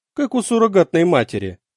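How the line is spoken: Dry reply. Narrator (Russian): сухо ответила мама

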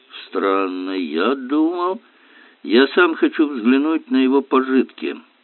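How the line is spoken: Grumbling. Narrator (Russian): проворчал инспектор

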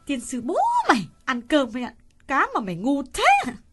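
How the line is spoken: Old woman hissing through teeth. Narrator (Vietnamese): bà nghiến răng rít lên

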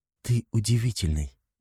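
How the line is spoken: Soft. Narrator (Russian): мягко произносит Саша

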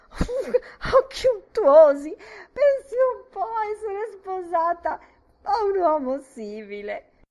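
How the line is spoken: Shrieking. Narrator (Italian): strillò

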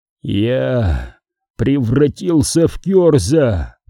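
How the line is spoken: Hoarse, strained voice. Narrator (Russian): сипло выговорил Пертураба

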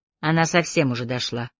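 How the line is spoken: Artist's grumble. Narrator (Russian): проворчала художница

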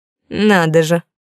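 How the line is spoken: Angry smirk. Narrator (Russian): зло усмехнулась

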